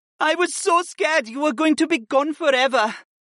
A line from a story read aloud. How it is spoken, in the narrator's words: Syra whimpered